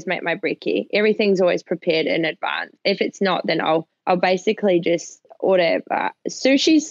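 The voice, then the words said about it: New Zealand accent mixed with Australian. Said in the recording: “we can hear it in your accent. We love a good Kiwi accent. ... It's like a remix of Kiwi and Aussie.”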